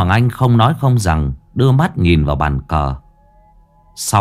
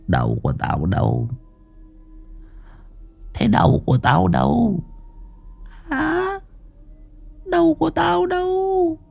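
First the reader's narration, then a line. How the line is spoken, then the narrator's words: Faint ghostly mumbling. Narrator (Vietnamese): bóng Hoàng Anh lẩm bẩm lí nhí trong miệng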